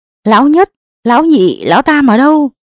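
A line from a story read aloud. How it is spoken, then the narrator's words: Powerful shout. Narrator (Vietnamese): Lão Tôn vận nội lực, hét lên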